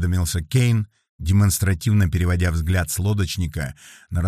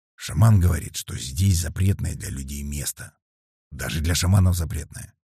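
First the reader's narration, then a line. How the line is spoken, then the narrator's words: Quiet. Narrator (Russian): негромко рассказал толстяк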